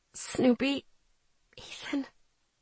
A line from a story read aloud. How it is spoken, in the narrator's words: I whispered, my heartbeat filling my ears